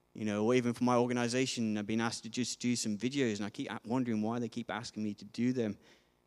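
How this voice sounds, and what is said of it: Hard-to-place accent, dropped sounds. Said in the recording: “my accent is one of the hardest for people to kind of understand, because they can't pigeonhole it into a certain thing ... missing certain letters out as I speak”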